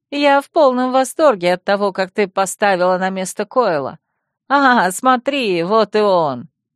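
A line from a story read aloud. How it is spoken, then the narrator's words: Giggling, pleased, loud. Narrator (Russian): Хихикнула и с удовольствием добавила громким голосом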